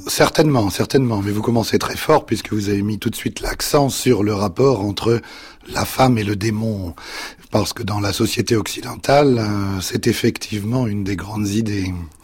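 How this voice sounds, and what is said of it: Slightly husky, veiled voice. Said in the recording (French): “Avec une voix un peu voilée”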